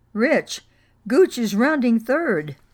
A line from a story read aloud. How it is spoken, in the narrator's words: I heard Coach Bodak scream from our dugout